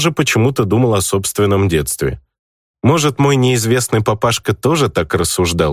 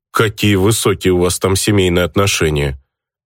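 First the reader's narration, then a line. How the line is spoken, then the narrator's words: Grumbled. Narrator (Russian): проворчал я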